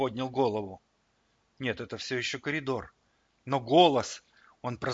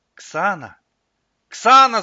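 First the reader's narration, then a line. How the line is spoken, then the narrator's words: Shouted. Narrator (Russian): закричал он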